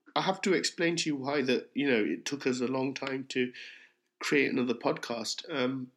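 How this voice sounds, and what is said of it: Hoarse, failing voice. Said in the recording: “my voice is going because I have got the flu”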